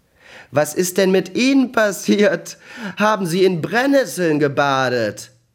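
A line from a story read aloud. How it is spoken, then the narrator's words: Grinning after unrestrained laughter. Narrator (German): fing er an, hemmungslos zu lachen und sagte grinsend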